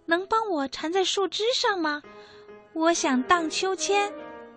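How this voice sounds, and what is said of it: Sweet, light, cheerful voice. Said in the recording (Chinese): “以甜美轻快的声音说道”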